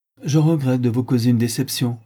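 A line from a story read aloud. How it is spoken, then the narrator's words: Curt woman. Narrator (French): dit la dame sèchement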